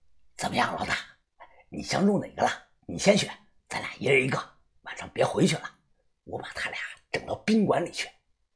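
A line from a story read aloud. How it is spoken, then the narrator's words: Quiet whisper. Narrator (Chinese): 马大超跟我小声的说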